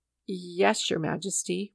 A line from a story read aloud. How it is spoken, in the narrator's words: murmured the trembling traders